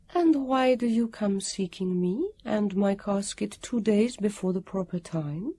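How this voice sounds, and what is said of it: Lilting voice, trace of foreign accent. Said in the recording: “Her voice had a lilt to it, or a trace of a foreign accent.”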